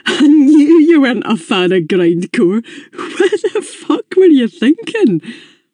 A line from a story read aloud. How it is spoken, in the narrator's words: He started giggling again